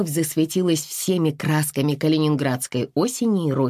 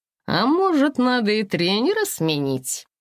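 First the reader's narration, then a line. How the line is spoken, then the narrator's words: Joyful chuckle. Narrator (Russian): Она радостно хохотнула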